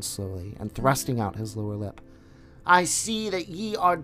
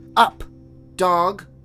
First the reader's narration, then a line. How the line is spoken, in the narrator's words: Mowgli cried